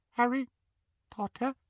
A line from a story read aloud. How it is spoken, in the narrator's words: he squeaked in the tiniest quiver of a voice